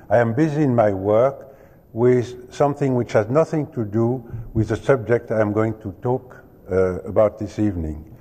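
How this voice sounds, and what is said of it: Heavy French accent in English. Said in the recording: “I was told to have a heavy French accent”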